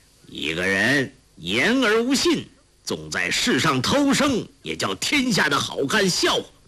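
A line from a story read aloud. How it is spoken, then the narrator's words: Cold. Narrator (Chinese): 欧阳锋冷冷地说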